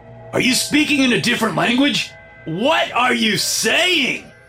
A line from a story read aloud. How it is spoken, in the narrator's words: Doris whispered in his ear